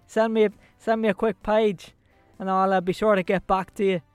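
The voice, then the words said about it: Put-on Irish accent drifting Belfast. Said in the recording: “I think my accent's gone a little bit there ... I've gone Belfast all of a sudden ... supposed to be Irish”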